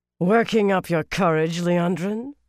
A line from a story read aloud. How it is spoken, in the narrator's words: Suroth said harshly